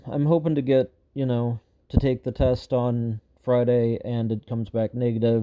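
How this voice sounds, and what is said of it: Voice going hoarse. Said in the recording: “losing my voice a little bit as I'm talking to you ... losing my voice a little bit because I've been doing a lot of talking and singing lately”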